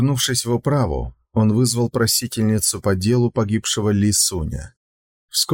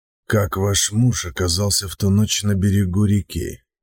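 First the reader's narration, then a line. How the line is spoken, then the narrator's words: Trying to speak gently. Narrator (Russian): Сун Цзиюй старался говорить мягко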